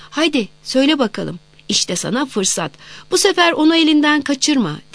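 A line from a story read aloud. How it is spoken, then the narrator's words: Crowd shouting together. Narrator (Turkish): diye bağırışıyorlardı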